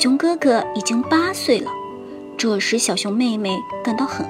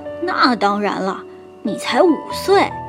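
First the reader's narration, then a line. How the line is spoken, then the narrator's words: Laughing. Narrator (Chinese): 小熊哥哥笑着说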